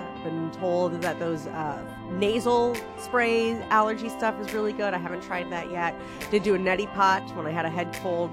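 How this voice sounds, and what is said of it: Congested, stuffy nasal voice. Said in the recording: “Between catching a little head cold and my allergies, I feel like I have been stuffed up ... Not sure if you can hear it in my voice. I try to not be so stuffy, but I am. I'm a little stuffed.”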